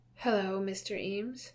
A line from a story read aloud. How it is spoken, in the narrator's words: Arthur says with a sigh